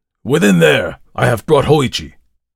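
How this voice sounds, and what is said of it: Loud shouted call. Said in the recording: “cried in a loud voice”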